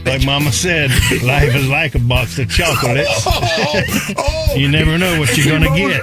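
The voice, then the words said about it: Forrest Gump character impression. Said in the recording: “my best Forrest Gump impression”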